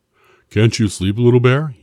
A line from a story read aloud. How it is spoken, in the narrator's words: yawned Big Bear